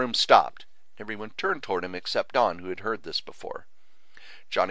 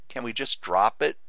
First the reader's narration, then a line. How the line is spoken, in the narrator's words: Johnny said quietly